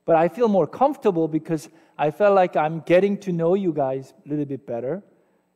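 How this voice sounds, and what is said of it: Non-native English accent. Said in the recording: “I'm not a native speaker, right? So I have accent and my grammar is, you know, a little bit here and there”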